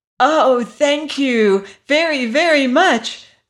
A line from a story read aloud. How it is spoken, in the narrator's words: cried Dorothy